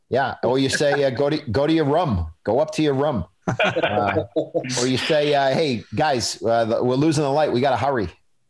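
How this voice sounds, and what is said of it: Exaggerated Boston accent. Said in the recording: “that's how I teach people the accent ... the most Boston line”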